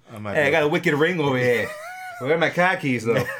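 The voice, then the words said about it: Exaggerated Boston accent. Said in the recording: “With a super Boston accent.”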